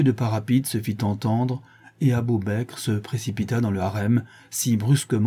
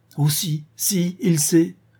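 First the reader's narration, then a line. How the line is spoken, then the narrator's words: Anguished cry. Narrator (French): s'écria la jeune femme en se tordant les mains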